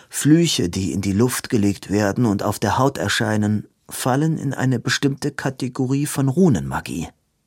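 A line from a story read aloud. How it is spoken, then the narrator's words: Plain. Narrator (German): sagte Edwin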